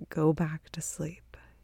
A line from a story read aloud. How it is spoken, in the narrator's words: whispers